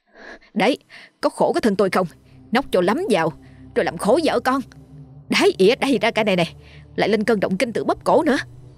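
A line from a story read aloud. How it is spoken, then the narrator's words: Strained angry yelling. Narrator (Vietnamese): gân cổ lên quát chồng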